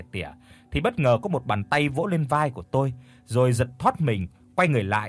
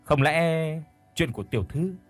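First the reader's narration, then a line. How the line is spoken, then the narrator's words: Sighing. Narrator (Vietnamese): Thở dài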